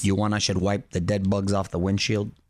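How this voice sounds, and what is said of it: Imitates another person's voice. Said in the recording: “That was not a bad impression.”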